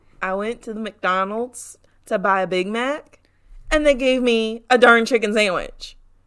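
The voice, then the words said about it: Attempted Southern US accent. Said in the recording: “We're going for, like, legit Southern accent ... I don't know if I can do a southern accent. ... Southern.”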